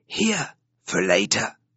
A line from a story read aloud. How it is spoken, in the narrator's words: whispers to Lisa